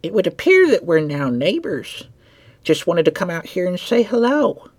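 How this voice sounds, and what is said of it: Raspy old woman, slight southern accent. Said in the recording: “a woman's voice called out. It was raspy and gravelly with age... a hint of a southern accent trailing in her voice”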